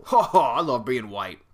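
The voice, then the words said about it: Imitates a police officer's voice. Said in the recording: “That was my impression of a cop, everybody. It's pretty good.”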